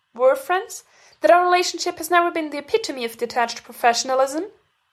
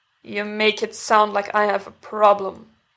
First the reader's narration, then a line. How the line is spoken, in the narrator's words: Derek mutters